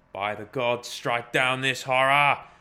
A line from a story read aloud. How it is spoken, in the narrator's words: he roared